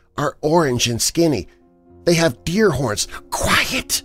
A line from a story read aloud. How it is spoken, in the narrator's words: still whispering